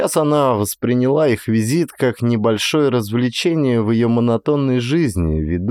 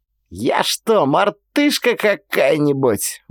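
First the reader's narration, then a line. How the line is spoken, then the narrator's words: Exclamation. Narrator (Russian): воскликнула Эрика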